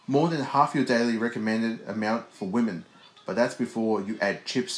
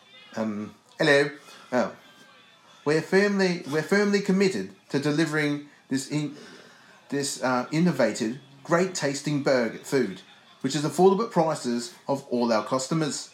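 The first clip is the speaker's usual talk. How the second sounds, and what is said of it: Put-on accent reading a quote. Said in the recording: “Oh, you want me to do an accent? I'll do an accent.”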